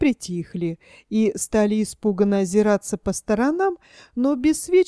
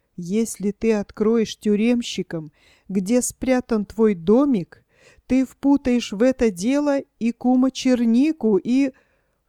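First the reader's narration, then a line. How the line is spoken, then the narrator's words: Whisper. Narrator (Russian): прошептал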